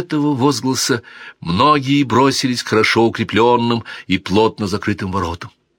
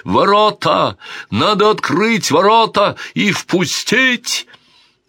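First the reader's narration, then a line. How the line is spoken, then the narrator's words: Shout. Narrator (Russian): Он закричал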